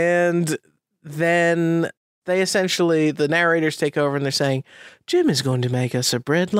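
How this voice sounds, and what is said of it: Usual voice. Nothing is said of it.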